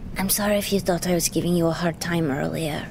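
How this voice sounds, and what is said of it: Whispering. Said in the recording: “whisper”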